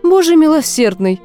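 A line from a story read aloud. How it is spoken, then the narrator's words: Exclaiming. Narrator (Russian): воскликнула миссис Филд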